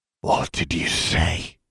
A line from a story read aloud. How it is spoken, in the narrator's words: hissed